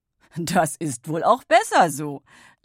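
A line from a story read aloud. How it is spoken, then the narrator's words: Laughing. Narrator (German): lachte er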